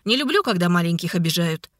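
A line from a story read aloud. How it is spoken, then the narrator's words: Chuckling. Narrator (Russian): Игнат хохотнул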